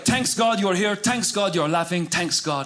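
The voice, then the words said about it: Imitated thick Middle Eastern accent. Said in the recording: “my dad has a thick accent.”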